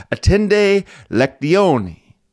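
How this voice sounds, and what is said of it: Latin with slight Italian accent. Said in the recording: “I always say my Latin with a little bit of an Italian accent there.”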